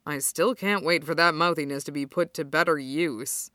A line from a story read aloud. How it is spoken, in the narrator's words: Kuro mutters, and Kenma can hear the stupid smile in his voice